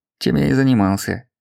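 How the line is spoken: Sergeant grumbling. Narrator (Russian): проворчал сержант

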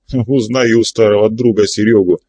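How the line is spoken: Laughing. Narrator (Russian): смеясь сказал Горыныч

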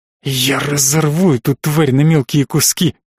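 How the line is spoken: Choked furious rasp. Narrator (Russian): захрипела Даша, вцепившись в замаскированный под изящное ожерелье ошейник, словно он начал ее душить

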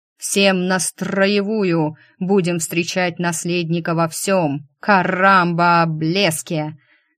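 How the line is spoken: Drunk sergeant growling. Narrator (Russian): Наливаясь пивом, рычал сержант

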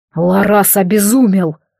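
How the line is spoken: Hoarse. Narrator (Russian): хрипло проговорил Ироталь

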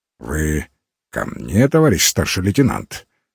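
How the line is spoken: Confident deep bass question. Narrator (Russian): солидным, самоуверенным баском спросил он

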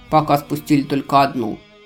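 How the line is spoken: Unpleasant chuckle, man. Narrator (Russian): Храмовник неприятно хохотнул

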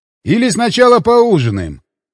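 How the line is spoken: Shouted. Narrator (Russian): крикнул я

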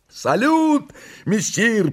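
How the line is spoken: Two restless voices shouting. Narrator (Russian): прокричала неугомонная парочка

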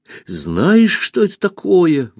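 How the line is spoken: Exclaimed. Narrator (Russian): воскликнул Пашка

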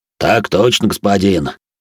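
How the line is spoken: Deep bass male voice. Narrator (Russian): пробасил друг Фредерика

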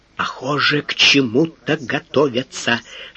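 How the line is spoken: Whispered in ear. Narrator (Russian): шепнул на ухо инженеру Лисицкий

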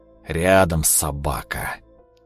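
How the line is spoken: Breathed out. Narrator (Russian): выдохнул Климов

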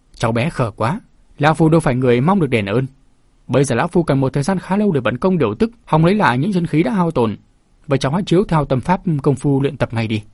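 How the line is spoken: Laughing loudly. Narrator (Vietnamese): Tu Đinh Quân cười lớn

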